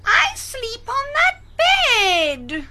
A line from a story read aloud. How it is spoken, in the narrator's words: Cried Felix